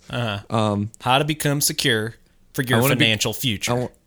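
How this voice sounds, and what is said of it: Imitates another person's voice. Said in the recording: “my Dave Ramsey impression”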